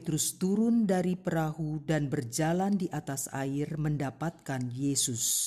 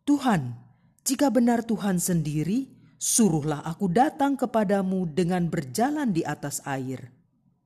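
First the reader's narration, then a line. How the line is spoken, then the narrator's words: Calling out. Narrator (Indonesian): Petrus berseru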